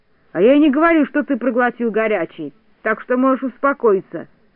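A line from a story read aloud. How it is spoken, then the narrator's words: Plain. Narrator (Russian): ответил Незнайка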